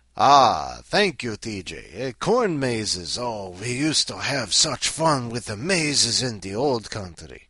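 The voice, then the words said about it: Put-on Romanian-style accent. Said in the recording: “Although I'm not sure it was Romania. My accent, I don't know.”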